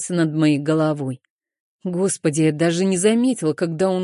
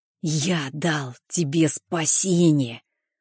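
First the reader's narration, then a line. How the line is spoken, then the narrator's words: Hissing whisper. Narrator (Russian): Он продолжал говорить свистящим шепотом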